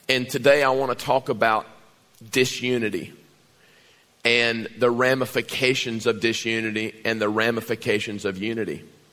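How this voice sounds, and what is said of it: Strained, hoarse voice. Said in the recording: “lost my voice during worship”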